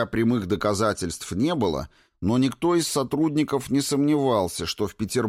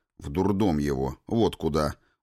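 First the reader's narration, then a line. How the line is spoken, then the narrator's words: Gruff grumble. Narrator (Russian): буркнул Паша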